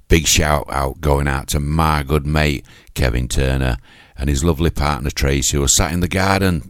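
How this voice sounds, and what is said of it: Yorkshire accent. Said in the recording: “It's my Yorkshire accent”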